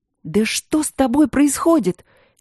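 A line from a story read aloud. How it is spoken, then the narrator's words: Puzzled whispered shout. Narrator (Russian): недоуменно закричала шепотом Ангелина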